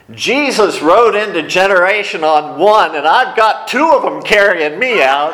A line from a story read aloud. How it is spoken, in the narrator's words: she yells over her shoulder